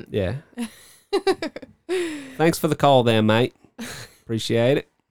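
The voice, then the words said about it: Put-on Australian accent. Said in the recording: “There's nothing in the world I love more than an Australian accent. ... That's pretty good. ... it's not bad.”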